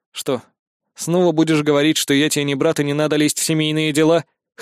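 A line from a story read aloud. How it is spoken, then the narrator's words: Mocking snort. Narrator (Russian): хмыкнул я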